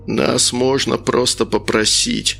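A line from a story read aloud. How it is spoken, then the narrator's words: Creaky voice. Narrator (Russian): проскрипел антимаг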